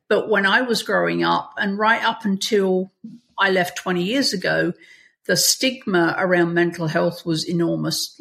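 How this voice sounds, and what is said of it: English accent. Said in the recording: “You can probably tell from my accent, I didn't grow up in America. So I grew up in England.”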